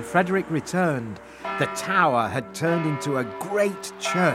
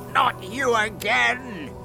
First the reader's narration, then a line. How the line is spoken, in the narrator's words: shouted the magic fish angrily